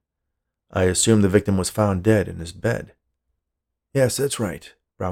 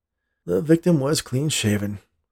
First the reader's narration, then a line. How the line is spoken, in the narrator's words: the policeman said with a sigh